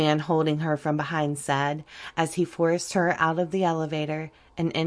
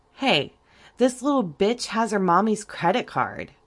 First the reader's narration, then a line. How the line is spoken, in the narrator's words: one of the men exclaimed